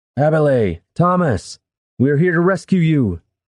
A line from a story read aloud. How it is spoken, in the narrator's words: Brennus called out